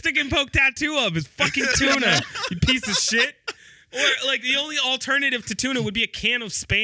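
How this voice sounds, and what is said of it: Usual voice. Nothing is said of it.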